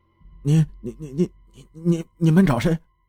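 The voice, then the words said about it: Trembling, stammering quiet voice. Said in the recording (Chinese): “打着哆嗦， 小声的问”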